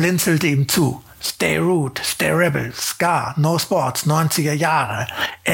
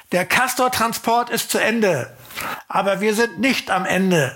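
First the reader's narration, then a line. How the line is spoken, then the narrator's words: Calling out to people. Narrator (German): rief den Leuten zu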